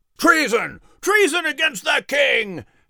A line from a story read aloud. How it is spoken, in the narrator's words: shouted the group of men opposing Henry